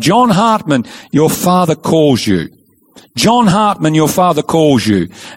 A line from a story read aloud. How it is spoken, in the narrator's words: crying out